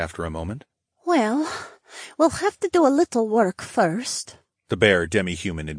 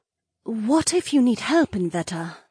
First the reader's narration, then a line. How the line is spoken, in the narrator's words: Naomi asked in a worried tone